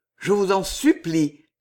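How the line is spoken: Ardent, trembling voice. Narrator (French): continua-t-il d'une voix ardente et à la fois tremblante

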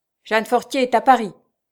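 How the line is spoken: Curt retort. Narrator (French): répliqua le chef d'un ton sec

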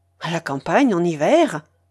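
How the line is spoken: Exclaiming. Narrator (French): s'écria Joseph

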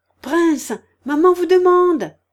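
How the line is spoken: Shouting. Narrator (French): cria Kolia

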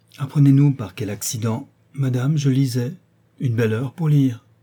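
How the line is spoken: Exclaimed. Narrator (French): s'écria le marquis

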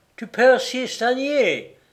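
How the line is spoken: Exclaiming. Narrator (French): s'écria-t-il

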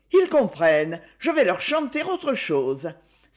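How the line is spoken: Exclaimed. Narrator (French): s'écria-t-elle

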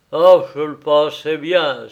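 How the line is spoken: Exclaiming. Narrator (French): s'écria-t-il

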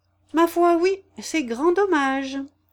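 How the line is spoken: Exclaimed. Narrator (French): s'écria Claudie

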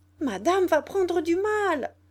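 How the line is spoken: Shouted. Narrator (French): criait Zoé

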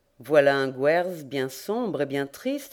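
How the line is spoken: Plain. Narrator (French): dit Frances

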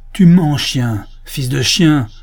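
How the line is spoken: Furious outburst. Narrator (French): s'écria le sénateur, mis hors de lui-même par cette révélation si inattendue

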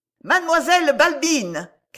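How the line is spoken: Shouting. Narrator (French): cria une voix

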